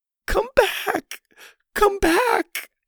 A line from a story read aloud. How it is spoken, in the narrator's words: Lainey continued in her strained voice